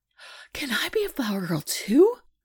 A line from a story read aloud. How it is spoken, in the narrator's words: she gasps